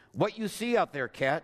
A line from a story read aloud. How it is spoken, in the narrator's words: Nathan asked